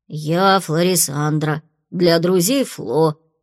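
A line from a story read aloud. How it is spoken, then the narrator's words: Grumbling. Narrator (Russian): буркнула толстушка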